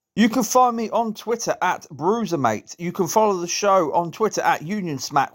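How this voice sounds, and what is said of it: Strained, failing voice. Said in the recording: “my voice is going already.”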